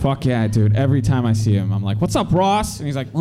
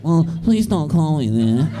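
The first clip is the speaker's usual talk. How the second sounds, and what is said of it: Impression of Ross from Friends. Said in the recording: “great Ross impression.”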